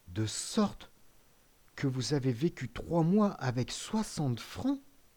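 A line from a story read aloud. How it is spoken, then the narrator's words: Murmured. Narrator (French): murmura le jeune homme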